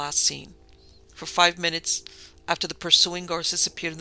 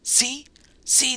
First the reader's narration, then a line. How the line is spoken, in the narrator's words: the convict gasped, hoarsely